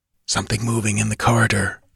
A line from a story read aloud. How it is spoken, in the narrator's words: hissed the Pict